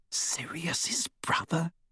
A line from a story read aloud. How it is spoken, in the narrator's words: She whispered